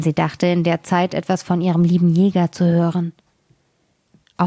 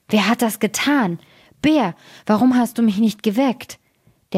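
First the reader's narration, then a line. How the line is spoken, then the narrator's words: Terrible roaring. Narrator (German): fing er an, fürchterlich zu brüllen und rief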